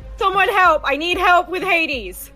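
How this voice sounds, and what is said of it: Screaming for help. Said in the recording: “I'm screaming”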